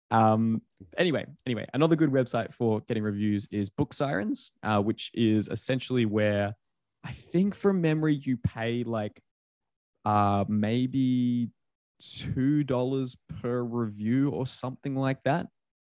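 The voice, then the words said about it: Australian accent. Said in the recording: “an unintelligible accent. Only a Brit could understand this ... with an Australian accent”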